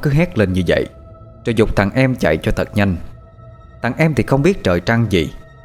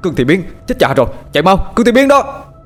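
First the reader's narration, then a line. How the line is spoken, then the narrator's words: Panicked shout. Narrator (Vietnamese): Thằng Tử bây giờ mới hét lên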